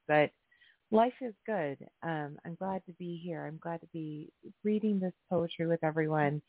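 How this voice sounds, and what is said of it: Hoarse, slightly raspy voice. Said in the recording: “it's left me a little hoarse. So if my voice is a little raspier than usual”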